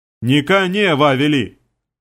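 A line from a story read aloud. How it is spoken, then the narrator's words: Fighters roaring in chorus. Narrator (Russian): хором проревели бойцы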